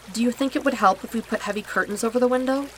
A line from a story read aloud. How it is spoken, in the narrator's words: she asks